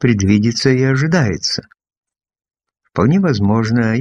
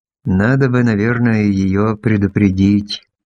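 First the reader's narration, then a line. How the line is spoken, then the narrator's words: Plain. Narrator (Russian): сказал я Шацу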